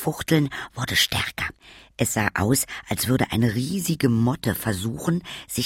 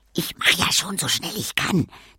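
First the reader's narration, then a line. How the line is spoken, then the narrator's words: Sister hissing. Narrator (German): zischte meine Schwester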